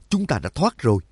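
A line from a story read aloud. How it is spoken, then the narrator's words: Joyful exclamation. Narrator (Vietnamese): Nhạc Dương mừng rỡ thốt lên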